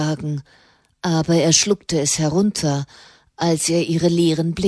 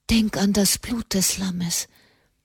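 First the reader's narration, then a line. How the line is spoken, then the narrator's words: Whispering into ear. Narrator (German): flüsterte Katharina dem Knaben ins Ohr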